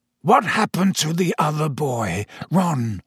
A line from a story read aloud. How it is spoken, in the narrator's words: croaked Sirius